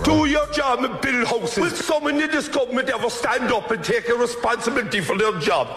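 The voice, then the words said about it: Strong Cork accent. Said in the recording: “he has the Jamaican accent ... I love the Cork accent. I love a strong Cork accent. It's powerful.”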